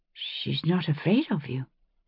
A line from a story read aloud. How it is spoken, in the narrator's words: I said quietly